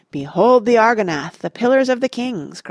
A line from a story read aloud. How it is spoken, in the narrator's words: cried Aragorn